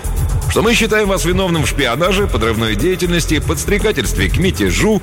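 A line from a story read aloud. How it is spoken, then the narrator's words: Cheerful. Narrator (Russian): весело начал сотрудник специального отдела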